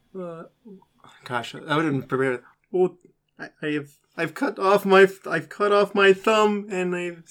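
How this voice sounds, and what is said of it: Slow, odd, Kermit-like impression voice. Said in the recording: “your best Emo Phillips impression ... very slow, very deliberate, but yet very odd ... You're kind of doing Kermit the Frog, but it is close.”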